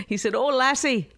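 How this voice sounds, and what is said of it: Put-on Irish accent, not cliched. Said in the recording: “I'm doing my Irish accent, which is... a lot of people only know the cliched Irish. I do something a little different. ... It's not really Irish.”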